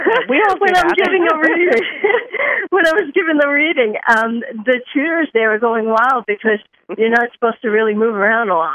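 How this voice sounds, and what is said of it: New York accent. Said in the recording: “here I am from New York, and I'm, I guess, a typical New Yorker ... I have an accent.”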